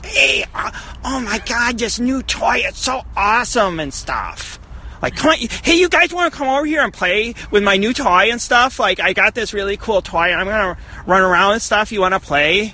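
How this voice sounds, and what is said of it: Young boy toy-commercial voice. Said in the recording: “voice is definitely like the voice of a six-year-old boy in like a toy commercial.”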